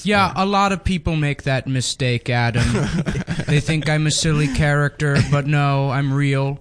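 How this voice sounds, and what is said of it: Dr. Evil voice, faint Canadian accent. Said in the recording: “With a faint Canadian accent ... A very faint Canadian accent, yes. A faint Dr. Evil accent”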